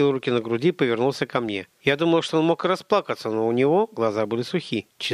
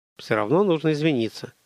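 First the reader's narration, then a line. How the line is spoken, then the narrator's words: Mumbling. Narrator (Russian): промямлил он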